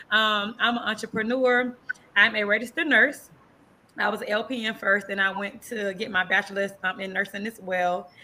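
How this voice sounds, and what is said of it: Light country accent. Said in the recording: “You could probably still hear my accent because I still got my little country accent.”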